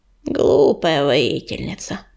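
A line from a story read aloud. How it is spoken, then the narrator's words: Growl. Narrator (Russian): прорычала она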